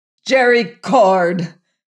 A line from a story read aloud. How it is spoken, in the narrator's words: cried Venters